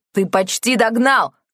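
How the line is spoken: Shouted. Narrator (Russian): крикнул Тео

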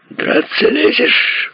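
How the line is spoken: Shrill squeal. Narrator (Russian): взвизгнул Филберт

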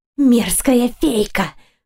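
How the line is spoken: Hiss. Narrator (Russian): прошипела тем временем Артания

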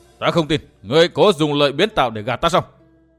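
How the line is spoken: Changed voice, shouting. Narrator (Vietnamese): Chàng lại đổi giọng hét to

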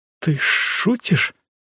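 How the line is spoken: Trembling voice. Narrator (Russian): дрогнувшим голосом решилась спросить Ашу

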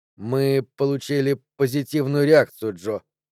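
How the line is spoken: Strained, forced out. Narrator (Russian): с трудом выдавил из себя Каган

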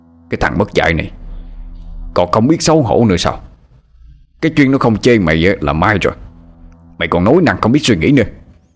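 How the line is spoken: Furious shouting. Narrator (Vietnamese): Ông Thường quát lên

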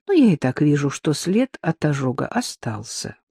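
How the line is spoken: Sigh. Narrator (Russian): вздохнула Надежда

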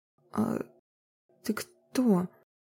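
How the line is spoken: Stammering, startled question. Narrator (Russian): заикаясь, спросила опешившая Марина

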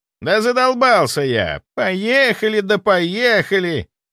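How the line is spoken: Thin mocking falsetto. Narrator (Russian): Тоненьким голоском передразнил свою избранницу Серега

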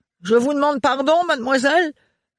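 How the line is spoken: Exclaiming. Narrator (French): s'écria Renard

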